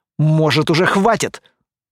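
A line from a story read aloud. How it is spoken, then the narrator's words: Angry snakelike hiss. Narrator (Russian): Зло, прямо как змея, прошипел он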